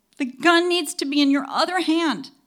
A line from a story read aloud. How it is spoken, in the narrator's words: shouted